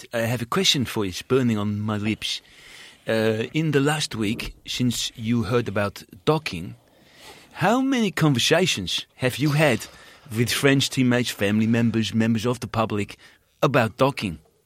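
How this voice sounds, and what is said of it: Put-on Dutch accent. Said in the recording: “I will also do a Dutch accent”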